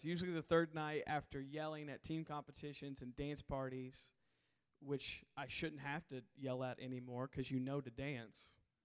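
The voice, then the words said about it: Hoarse voice with cracks. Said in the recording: “I am hoarse, as I usually am on the third night of summer camp... there might be some cracks that happen”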